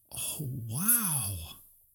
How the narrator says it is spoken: breathed

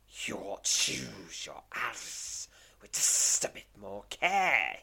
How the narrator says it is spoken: he snarls

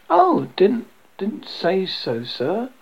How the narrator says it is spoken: exclaimed with a burst of passion, counting almost as a frenzy

